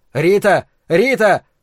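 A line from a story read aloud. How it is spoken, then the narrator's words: Shouting through cupped hands. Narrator (Russian): рупором сложил ладони у рта и закричал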